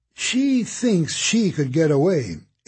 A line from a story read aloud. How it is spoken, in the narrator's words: exclaimed Constance